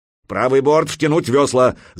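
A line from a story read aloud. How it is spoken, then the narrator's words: Shouting. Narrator (Russian): закричал Кительфаст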